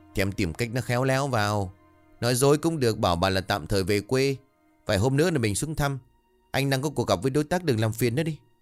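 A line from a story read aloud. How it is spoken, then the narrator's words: Slightly irritated. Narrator (Vietnamese): Phân hỏi lại giọng đã có chút bực bội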